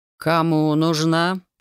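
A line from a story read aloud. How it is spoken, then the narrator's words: Insinuating question. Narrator (Russian): вкрадчиво спросил он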